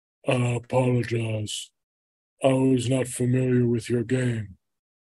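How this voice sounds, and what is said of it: Impression of Shaquille O'Neal. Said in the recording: “do my Shaq impression”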